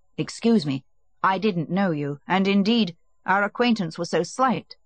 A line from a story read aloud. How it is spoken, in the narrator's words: said Vronsky